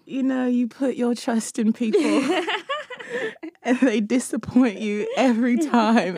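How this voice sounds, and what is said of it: Put-on British accent. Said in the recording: “she has to do the show in her most famous British accent.”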